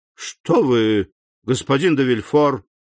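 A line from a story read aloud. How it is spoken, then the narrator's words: Exclamation. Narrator (Russian): воскликнул председатель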